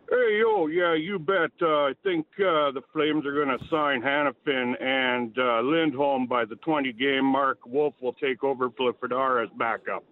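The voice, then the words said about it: Sylvester Stallone impression. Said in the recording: “give us a Flames take in a Sylvester Stallone voice ... pretty good ... the accent for Sly”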